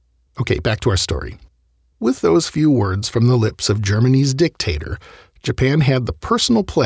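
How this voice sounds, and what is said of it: Usual voice. Nothing is said of it.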